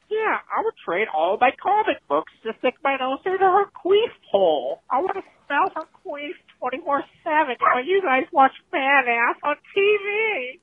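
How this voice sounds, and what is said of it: High-pitched, squeaky imitation of another person. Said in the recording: “great impression of you ... Every impression of me is, I'm always all high-pitched and squeaky”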